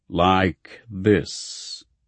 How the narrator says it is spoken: the dim figure before me intoned

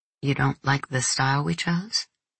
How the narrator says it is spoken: I murmured

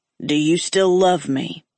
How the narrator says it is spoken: He asked calmly

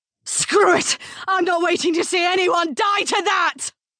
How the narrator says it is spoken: Nick heard Clarissa yell

